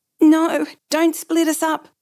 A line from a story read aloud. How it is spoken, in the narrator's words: the girl blurted